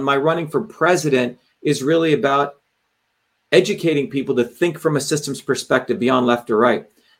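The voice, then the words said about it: Hoarse, strained voice. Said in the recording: “You can see my throat is getting hoarse.”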